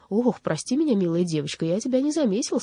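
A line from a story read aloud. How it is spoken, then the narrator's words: Embarrassed exclamation. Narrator (Russian): смущенно воскликнул Страшила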